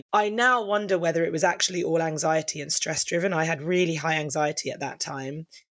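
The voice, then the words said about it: Husky voice. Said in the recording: “which is why I have this really husky voice now”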